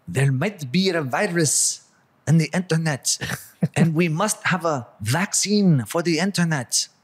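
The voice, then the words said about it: Impression of Klaus Schwab. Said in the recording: “that's a great impression”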